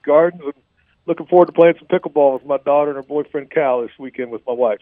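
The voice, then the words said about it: West Virginia accent. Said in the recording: “you have this great West Virginia accent”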